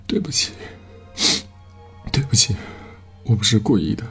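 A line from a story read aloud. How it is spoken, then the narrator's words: Choked, sobbing apology. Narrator (Chinese): 低声抽泣，哽咽着说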